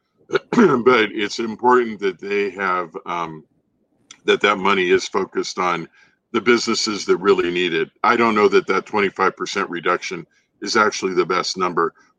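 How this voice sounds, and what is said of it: Hoarse, strained voice. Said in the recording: “excuse me, I'm losing my voice here”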